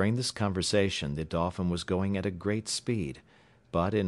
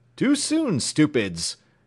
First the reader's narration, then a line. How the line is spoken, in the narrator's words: cried James Playfair, with a burst of laughter